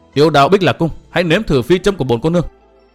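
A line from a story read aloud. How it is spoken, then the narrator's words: Loud shout. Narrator (Vietnamese): nàng nhảy sổ ra quát lớn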